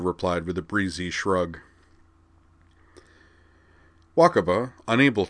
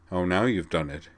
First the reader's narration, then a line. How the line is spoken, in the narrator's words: said Sayonji dryly